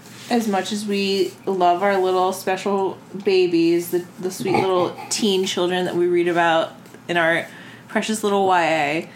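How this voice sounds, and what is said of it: Sarcastic, mock-sweet delivery. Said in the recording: “saying that very sarcastically ... way you're saying it is like you're holding a knife to YA”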